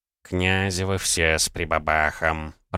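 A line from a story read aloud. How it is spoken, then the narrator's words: Grumbling. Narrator (Russian): проворчал Савелий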